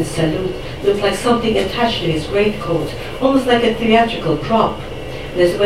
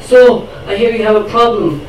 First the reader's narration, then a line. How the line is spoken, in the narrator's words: he bellowed in a voice that dripped accusation the way only handyman can convey